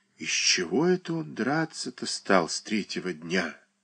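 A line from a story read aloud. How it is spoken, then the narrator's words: Thoughtful whisper. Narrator (Russian): Задумчиво прошептала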